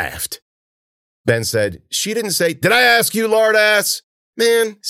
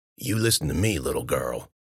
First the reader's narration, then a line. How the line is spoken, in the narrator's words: Warner muttered